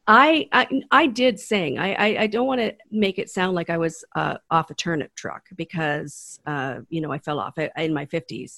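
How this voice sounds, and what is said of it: Hoarse, croaky voice. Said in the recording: “I have a frog in my throat”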